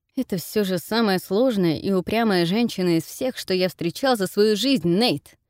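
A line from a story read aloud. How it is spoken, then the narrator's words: Angry, through gritted teeth. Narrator (Russian): Высказался сквозь зубы от гнева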